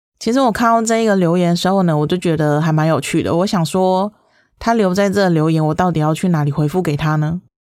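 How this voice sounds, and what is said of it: Distinctive, cute regional accent. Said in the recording (Chinese): “有特殊的口音？习惯这个口音之后呢，觉得这个口音很可爱”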